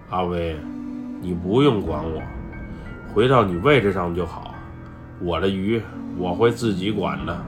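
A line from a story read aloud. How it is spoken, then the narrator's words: Cold curt remark. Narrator (Chinese): 小亮冷冷地说了一句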